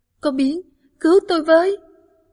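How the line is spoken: Scream. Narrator (Vietnamese): tiếng hét

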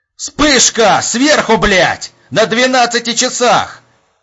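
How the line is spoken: Yelling. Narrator (Russian): Заорал Епифанов

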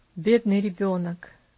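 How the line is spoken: Sighing. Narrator (Russian): вздохнул Иваршам

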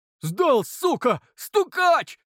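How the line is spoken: Group shouting. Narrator (Russian): закричали паханы

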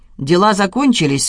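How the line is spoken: Gloomy statement. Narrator (Russian): мрачно констатировала его супруга

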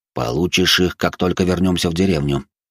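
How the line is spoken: Calm reply. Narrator (Russian): спокойно ответил вождь

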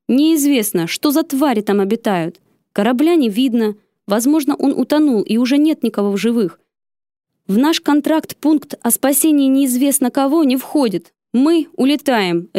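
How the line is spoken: Barked, brooking no objection. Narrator (Russian): рявкнул он тоном, нетерпящим возражения

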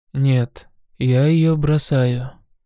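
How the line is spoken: Calm. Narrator (Russian): спокойно сказал он

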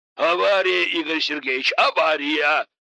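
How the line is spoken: Yelled. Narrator (Russian): завопил Игнат Васильевич

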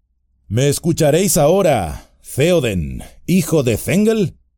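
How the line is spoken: Plain. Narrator (Spanish): dijo Gandalf

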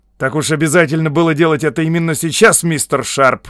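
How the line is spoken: Irritated question. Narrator (Russian): раздраженно осведомился он

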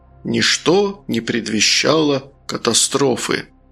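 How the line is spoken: Sepulchral solemn proclamation. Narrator (Russian): загробным голосом возвестить

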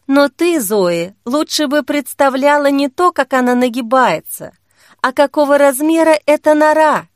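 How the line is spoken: Sighing. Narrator (Russian): Та вздохнула

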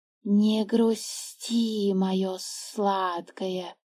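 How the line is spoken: Hiss. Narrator (Russian): прошипел змей

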